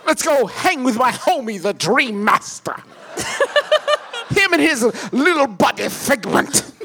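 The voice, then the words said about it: Tim Curry impression. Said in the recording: “it's an impeccable Tim Curry ... You do an amazing impression of what you think Tim Curry sounds like.”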